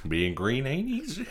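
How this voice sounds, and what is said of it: Kermit the Frog character voice. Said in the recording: “That's my Kermit impression.”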